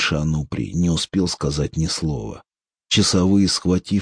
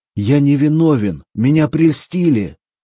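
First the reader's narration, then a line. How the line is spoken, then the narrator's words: Shouted. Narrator (Russian): он крикнул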